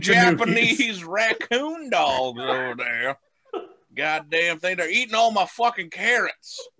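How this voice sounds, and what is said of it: Put-on Southern accent. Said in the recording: “southern racist accent”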